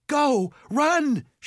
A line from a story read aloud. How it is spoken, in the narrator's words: she yelled